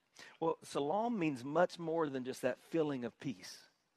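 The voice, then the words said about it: Southern US accent, South Carolina. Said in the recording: “with my accent, you probably assumed I was from New York, but I'm from South Carolina”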